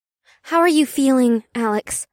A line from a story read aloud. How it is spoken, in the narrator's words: Una asked in a worried tone